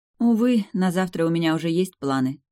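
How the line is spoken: Feigned sigh. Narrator (Russian): сказала я чистую правду, притворно вздохнув

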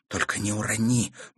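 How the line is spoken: Whisper. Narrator (Russian): прошептала Катерина

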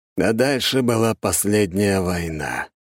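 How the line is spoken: Sighed. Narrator (Russian): вздохнул Дьерк

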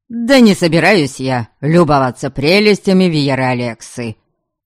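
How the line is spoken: Irritated snort. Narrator (Russian): Раздраженно фыркнул в ответ Норберг

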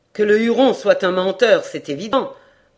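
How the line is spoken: Cold retort. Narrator (French): riposta froidement Hayward

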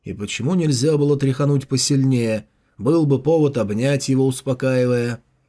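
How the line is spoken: Grumbling mutter. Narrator (Russian): Джао Юньлань пробурчал

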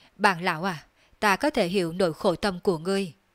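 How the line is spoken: Sighing. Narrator (Vietnamese): Đường Phong thở dài nói

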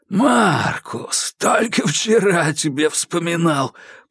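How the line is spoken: Hoarse rasp. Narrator (Russian): прохрипел

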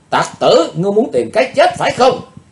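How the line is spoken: Loud shout. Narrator (Vietnamese): Chàng dốt hét to lên

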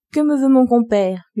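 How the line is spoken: Plain. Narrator (French): lui dit-elle

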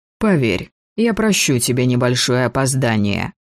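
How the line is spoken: Snort, suppressed laughter. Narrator (Russian): Маркус фыркнул от с трудом сдерживаемого смеха

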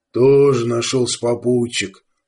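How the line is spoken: Grumbled. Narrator (Russian): пробурчал Арток

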